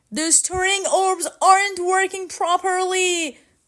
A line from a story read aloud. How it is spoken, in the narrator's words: cried Nock